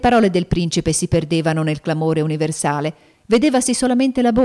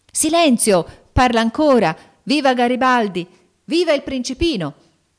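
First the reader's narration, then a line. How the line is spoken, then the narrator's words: Shouting. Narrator (Italian): gridando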